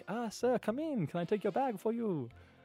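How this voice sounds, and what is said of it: Exaggerated bad Japanese accent. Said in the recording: “you're doing a generically bad racist accent ... an Asian ... it's Japanese, actually”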